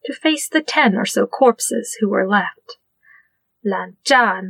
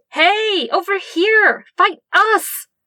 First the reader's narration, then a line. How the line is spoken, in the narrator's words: shouted at the remaining foes